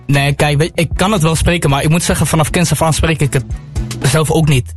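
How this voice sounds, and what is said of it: Amsterdam Dutch accent. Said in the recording (Dutch): “Twente, maar dit accent is niet Twente. ... het Amsterdamse accent.”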